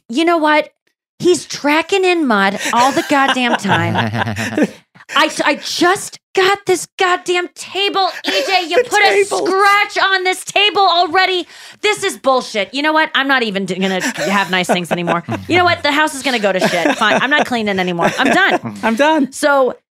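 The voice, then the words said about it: Imitates another person's voice. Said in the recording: “do a Julie impression”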